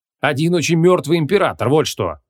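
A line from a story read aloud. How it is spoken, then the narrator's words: Barked. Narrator (Russian): рявкнул Креол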